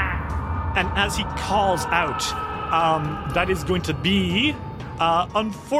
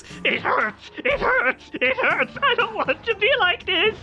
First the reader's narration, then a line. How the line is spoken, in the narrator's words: starts shrieking and says